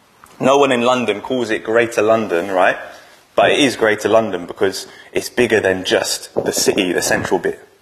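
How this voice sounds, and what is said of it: London English accent. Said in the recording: “accent's a bit suspect. It's not an Oldham accent. It's because I'm from London”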